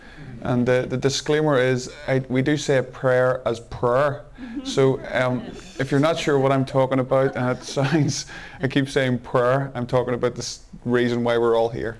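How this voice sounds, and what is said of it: Broad Northern Irish accent. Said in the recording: “I'm from the north of Ireland, so my accent is a little broad at times.”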